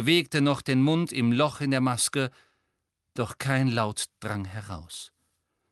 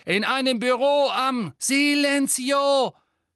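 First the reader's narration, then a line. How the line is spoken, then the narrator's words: Screaming. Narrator (German): schrie Hermine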